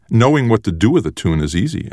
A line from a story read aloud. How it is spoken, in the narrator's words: Ender said